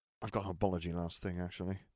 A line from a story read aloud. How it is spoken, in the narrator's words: Nev muttered